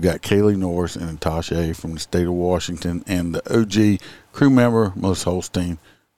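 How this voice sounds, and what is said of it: Thick American country accent. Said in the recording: “I sound like a raging redneck. Because everybody says I have a real thick country accent”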